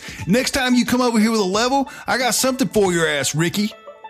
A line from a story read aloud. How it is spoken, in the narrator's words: Dad is screaming at the top of his lungs